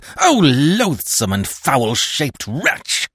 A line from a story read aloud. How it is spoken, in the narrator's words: I cried